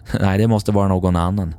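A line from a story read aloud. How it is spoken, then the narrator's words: Laughing. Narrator (Swedish): skrattade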